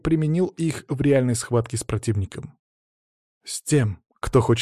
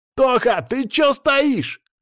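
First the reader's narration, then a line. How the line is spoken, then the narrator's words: Shout. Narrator (Russian): кричал Саня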